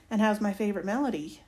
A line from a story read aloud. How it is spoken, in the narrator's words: he asks